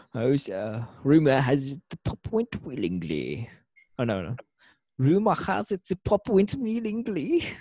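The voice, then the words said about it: Weird German-Russian put-on accent. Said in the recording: “the weird germ Russian accent that guy had ... Crazy accent ... I don't know what kind of accent that was supposed to be”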